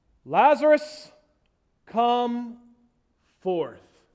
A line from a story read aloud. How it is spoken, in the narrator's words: Jesus cried out in a loud voice